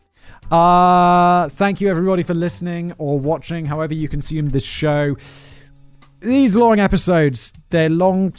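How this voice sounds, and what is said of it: Slightly sore, strained voice. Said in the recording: “My voice is actually slightly sore.”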